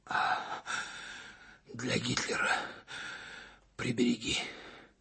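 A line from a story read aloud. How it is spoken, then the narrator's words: Commander gasping with effort. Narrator (Russian): через силу выдохнул комбат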